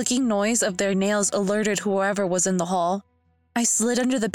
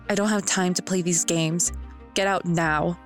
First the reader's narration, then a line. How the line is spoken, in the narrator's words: he said in a quiet but deadly voice